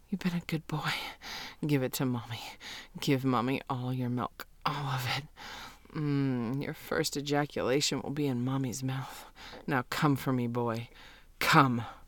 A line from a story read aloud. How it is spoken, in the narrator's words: I see my boy quivering and gasping and finally say